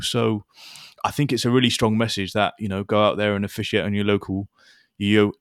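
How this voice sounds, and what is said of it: Wiltshire English accent. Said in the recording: “your Wiltshire accent”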